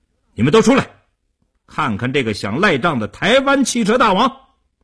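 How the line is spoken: Vicious raised shout. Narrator (Chinese): 叶成坚恶狠狠地提高声音对里屋喊道

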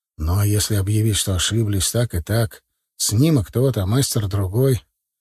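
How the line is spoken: Dreary tone. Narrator (Russian): Молчанов сам понимал, как это уныло звучит

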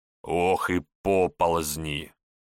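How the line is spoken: Old man grumbling. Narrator (Russian): ворчал на корме святого Георгия старый кормчий Ануфрий Кольцо

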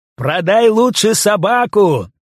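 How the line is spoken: Cheerful loud shout. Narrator (Russian): весело и громко, как глухому, крикнул молодой капитан парохода

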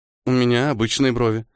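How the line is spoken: Uncertain, smiling. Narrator (Russian): неуверенно улыбнулась она

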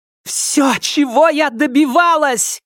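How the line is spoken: Shout. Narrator (Russian): кричала она

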